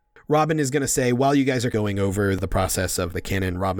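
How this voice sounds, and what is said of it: Usual voice. Nothing is said of it.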